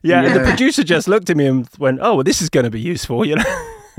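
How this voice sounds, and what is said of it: English accent. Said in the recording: “Oh, honey, I just love your accent ... it's not like people haven't heard an English accent in Los Angeles before”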